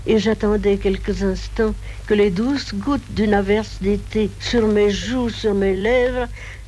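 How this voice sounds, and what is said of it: Speaks with a distinctive accent. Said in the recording (French): “Colette qui parlait avec cet accent”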